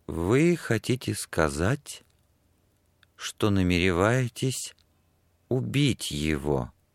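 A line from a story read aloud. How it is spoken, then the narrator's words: Very slow speech. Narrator (Russian): сказала она очень медленно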